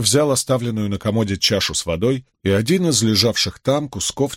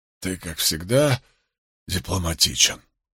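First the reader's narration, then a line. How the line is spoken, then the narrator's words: Whisper. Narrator (Russian): прошептал Вудвард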